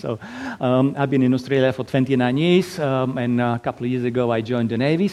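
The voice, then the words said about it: Eastern European Slovak accent. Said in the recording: “originally from little tiny little country in Eastern Europe, Slovakia. So that's why my lovely accent.”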